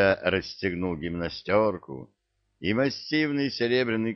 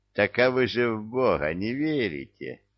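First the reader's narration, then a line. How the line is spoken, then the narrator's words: Laughing. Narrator (Russian): засмеялся Илья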